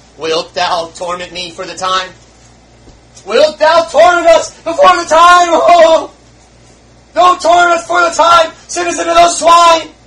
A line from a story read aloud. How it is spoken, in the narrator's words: he exclaimed